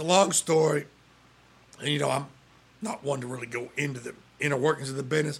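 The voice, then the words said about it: Hoarse, strained, nearly lost voice. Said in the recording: “that's why my voice is gone”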